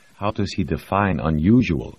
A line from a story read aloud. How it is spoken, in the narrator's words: Ilona asked